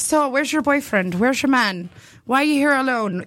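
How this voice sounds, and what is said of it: Put-on Irish accent. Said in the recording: “I can't do an Irish accent... you're doing pretty well... You're doing fine.”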